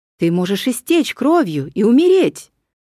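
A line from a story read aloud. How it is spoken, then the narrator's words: Exclamation. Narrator (Russian): воскликнул Зенон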